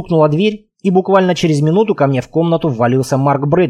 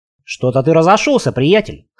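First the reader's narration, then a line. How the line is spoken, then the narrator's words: Amused grunt. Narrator (Russian): хмыкнул Марк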